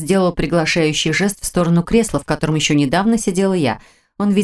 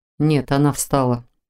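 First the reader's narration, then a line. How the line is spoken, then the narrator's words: Very even tone. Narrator (Russian): очень ровным тоном ответил тот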